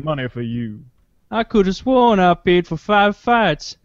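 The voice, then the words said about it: Put-on Savannah, Georgia Southern accent. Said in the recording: “talk in that like Savannah, you. ... Georgia accent, like D'Artagnan.”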